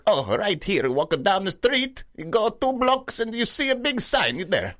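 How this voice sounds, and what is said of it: Put-on Chinese accent. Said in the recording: “someone's speaking to me in a Chinese accent, I will just speak to them in a Chinese accent”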